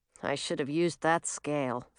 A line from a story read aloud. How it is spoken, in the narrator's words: Francis muttered